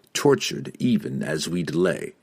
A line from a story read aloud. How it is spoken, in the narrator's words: Drizzt said in a calm, low tone